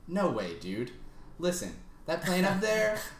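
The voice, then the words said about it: Good imitation of a character's voice. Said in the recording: “That's a really good impression.”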